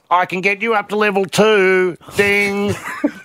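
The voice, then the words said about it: Imitates another person's voice. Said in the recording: “that your impression of our receptionist? ... That's my favourable impression.”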